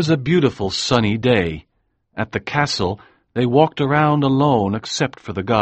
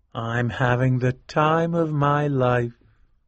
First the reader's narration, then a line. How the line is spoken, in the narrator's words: said Winterbourne quietly